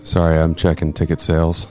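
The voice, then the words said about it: Deep, sexy voice. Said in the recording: “that is a deep, sexy voice”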